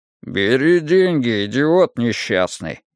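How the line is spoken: Grumbling. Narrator (Russian): проворчал Вик

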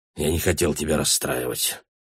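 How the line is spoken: Grumble. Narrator (Russian): буркнул Гай

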